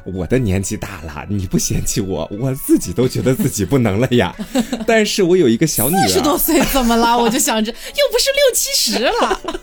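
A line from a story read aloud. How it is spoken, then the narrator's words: Old woman, laughing calmly. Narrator (Chinese): 这老妇人当时也没生气啊，就笑着说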